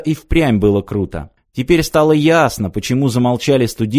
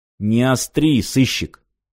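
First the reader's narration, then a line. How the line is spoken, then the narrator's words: Through gritted teeth. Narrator (Russian): процедил Крылов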